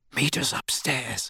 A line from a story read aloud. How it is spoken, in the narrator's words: Harry whispered to Hermione